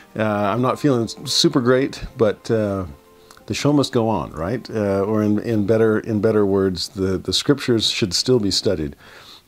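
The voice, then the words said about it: Congested voice, much lower than normal. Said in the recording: “I've either got a bad head cold or I'm hitting puberty again ... my voice is uh, about an octave lower than normal”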